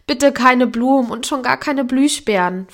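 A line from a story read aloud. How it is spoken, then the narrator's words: Pleading. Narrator (German): fleht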